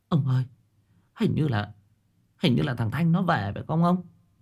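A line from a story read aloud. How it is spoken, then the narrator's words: Tired, trembling old woman. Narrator (Vietnamese): đang mệt mỏi, bà Hòe run rẩy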